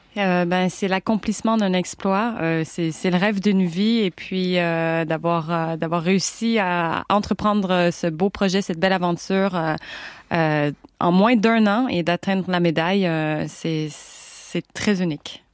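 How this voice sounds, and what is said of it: Québécois French accent. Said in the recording (French): “cet accent du Québec”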